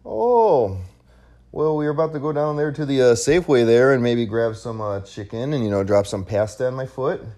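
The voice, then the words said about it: Put-on Canadian accent. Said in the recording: “Give me an accent. What accent do you want? ... Canadian.”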